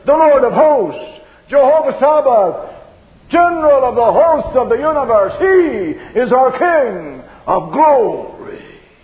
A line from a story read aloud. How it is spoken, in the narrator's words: the answer thunders